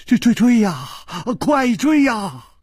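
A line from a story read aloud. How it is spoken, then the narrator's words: Terrified trembling voice. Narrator (Chinese): 金半花早已经是面无人色了，他颤声说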